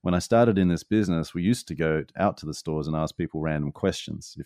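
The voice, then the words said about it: Australian accent. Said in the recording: “but with an Australian accent”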